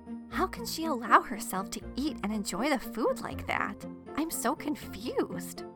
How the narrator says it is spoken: One sister whispered to another

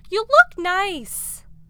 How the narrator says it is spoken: Ma's hysterical talk shouting

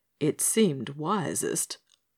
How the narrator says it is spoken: murmured Skamperoo

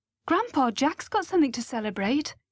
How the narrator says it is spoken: I said quickly

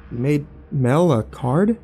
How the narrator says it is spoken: I said

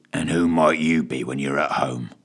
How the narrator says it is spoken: growled Fitch, with barely disguised annoyance

